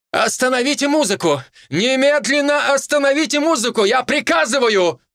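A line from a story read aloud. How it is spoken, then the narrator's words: Shouted. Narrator (Russian): Гораций прокричал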